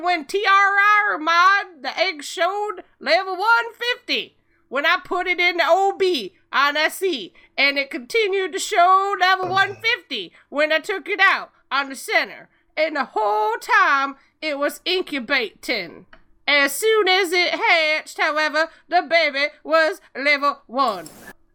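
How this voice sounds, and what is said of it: Imitates another person's voice. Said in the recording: “A perfect Lee accent ... I was impersonating Foe, impersonating Lee”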